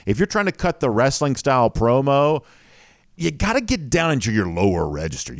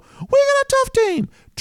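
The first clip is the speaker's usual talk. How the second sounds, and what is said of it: High falsetto voice. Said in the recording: “falsetto ... like the sort of Mickey Mouse, you know, like a falsetto voice”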